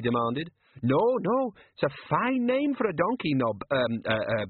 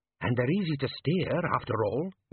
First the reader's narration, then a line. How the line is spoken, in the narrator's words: one whispered